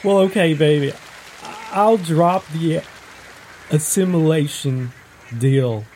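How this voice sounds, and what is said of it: Confident Texas accent. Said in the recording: “the Texas accent ... it's got this nice, confident ring to it”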